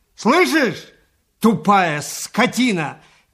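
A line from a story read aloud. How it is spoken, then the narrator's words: Shouted. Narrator (Russian): крикнул Иван Дмитрич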